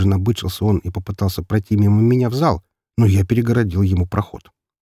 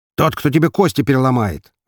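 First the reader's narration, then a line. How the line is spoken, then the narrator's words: Snapping retort. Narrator (Russian): огрызнулся он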